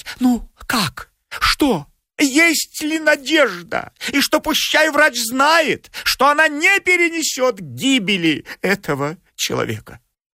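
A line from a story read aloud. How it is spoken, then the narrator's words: Anxious babbling questions. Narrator (Russian): заламывая руки, стала лепетать и спрашивать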